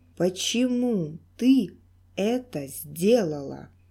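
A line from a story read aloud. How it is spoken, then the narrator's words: Slow menacing voice. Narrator (Russian): Медленно и страшно проговорил гутоперчивый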